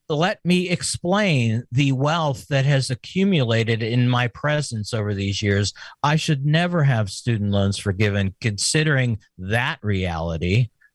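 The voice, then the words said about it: Sarcastic tone. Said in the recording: “You're being sarcastic, right?”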